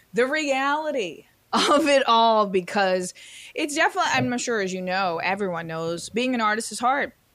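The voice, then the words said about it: Froggy, slightly hoarse voice. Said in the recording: “You might notice I have a cough drop in my mouth and my voice is a little froggy.”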